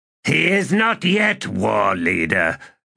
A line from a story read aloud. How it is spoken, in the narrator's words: growled Bakal